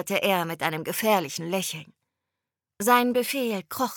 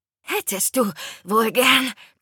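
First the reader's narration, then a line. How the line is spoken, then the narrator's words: Panting. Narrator (German): keuchte ich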